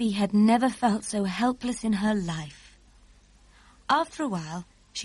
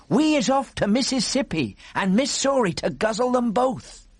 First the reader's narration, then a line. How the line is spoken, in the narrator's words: they was yelling